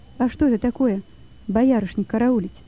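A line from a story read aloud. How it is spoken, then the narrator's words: Plain. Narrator (Russian): спросил Лёва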